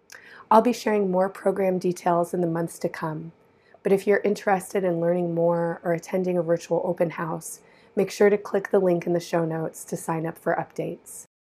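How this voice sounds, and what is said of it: Hoarse, strained voice. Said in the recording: “losing my voice, as you might be able to tell. So I'm sorry for my hoarseness”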